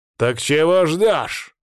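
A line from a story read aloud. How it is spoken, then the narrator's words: Barked. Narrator (Russian): рявкнул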